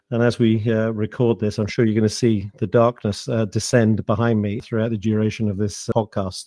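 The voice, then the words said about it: British accent. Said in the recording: “with my accent, I'm in the UK”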